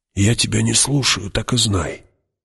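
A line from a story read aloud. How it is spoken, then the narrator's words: Hoarse whisper. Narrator (Russian): прошептал хрипло Кинес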